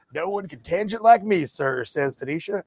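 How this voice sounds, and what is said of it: Put-on Southern accent. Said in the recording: “I don't know why I'm doing that voice ... How are you doing a Southern accent?”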